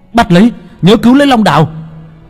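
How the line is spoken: Shout. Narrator (Vietnamese): Hắn hét lên

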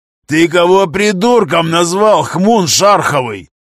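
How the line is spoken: Roared. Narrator (Russian): взревел Гремила

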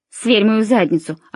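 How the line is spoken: Snapping retort. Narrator (Russian): огрызнулся Тимоти

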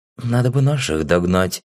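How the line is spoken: Hesitant addition. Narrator (Russian): неуверенно добавила

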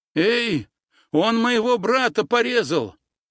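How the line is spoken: Exclamation. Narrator (Russian): воскликнул Вова

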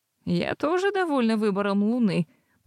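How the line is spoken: Purring. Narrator (Russian): промурлыкала я

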